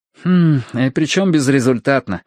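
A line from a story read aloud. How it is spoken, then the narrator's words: Sighed. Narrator (Russian): вздохнул Ти-Джей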